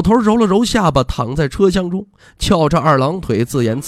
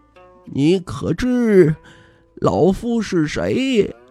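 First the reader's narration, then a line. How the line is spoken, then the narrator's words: Mysterious low old man. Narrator (Chinese): 老头 神秘兮兮低声道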